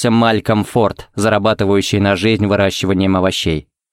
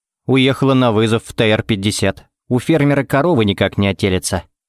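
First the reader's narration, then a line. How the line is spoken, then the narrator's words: Plain. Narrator (Russian): ответил Тед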